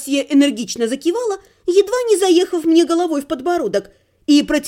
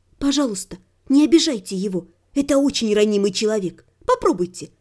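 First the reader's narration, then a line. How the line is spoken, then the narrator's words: Confidential whisper. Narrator (Russian): прошептала, как бы по секрету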